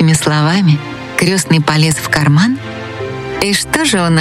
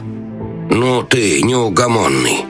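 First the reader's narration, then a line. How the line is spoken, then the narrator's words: Grumbling. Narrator (Russian): Проворчал советник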